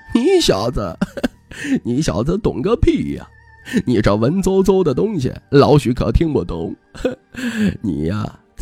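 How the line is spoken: Mocking sneer. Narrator (Chinese): 老许讥笑

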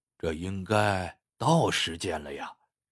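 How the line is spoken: Impatient muttering. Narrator (Chinese): 古老西忍不住嘀咕道

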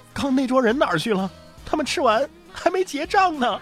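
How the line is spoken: Bewildered, crying. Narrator (Chinese): 上菜的服务员都懵了，哭着问

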